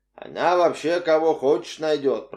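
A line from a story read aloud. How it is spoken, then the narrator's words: Grumbled. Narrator (Russian): проворчал Коломбо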